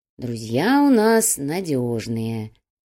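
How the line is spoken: Slow. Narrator (Russian): медленно ответил Чайка

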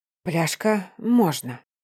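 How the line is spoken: Soft exhaled words. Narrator (Russian): Тихо выдохнул я, прикрыв глаза

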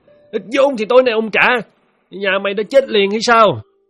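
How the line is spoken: Shouting. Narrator (Vietnamese): Hắn quát lên

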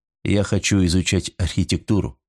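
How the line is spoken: Plain. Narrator (Russian): сказал Эйвери

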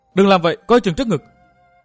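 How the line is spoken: Panicked cry, young woman. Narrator (Vietnamese): Tình thế cực kỳ mạo hiểm khiến Vi tiểu nữ hoảng hốt kêu lên

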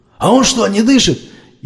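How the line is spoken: Frightened yell. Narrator (Russian): испугавшись не на шутку, заорал Кузьмич

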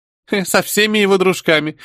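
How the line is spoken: Mocking giggle from a kid. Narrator (Russian): издевательски хихикнула сидящая рядом с Жуцием сопля

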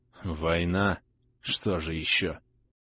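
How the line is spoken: Muttered. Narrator (Russian): пробормотал оперативник

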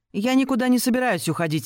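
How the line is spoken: Shout, sister. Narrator (Russian): выкрикнула сестра

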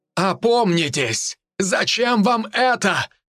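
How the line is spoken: Middle-aged man shouting. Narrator (Russian): кричал мужчина средних лет

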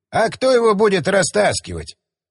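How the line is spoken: Snorting. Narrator (Russian): хмыкнул он

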